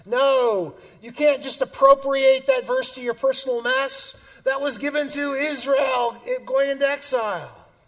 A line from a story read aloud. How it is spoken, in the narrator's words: The midwit screams